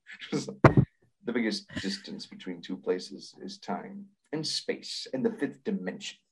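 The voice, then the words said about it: TV host impression, comic-book-guy voice. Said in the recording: “Your Rod Serling impression sounds like comic book guy.”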